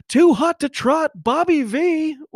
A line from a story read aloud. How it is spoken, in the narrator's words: it was the comms yelling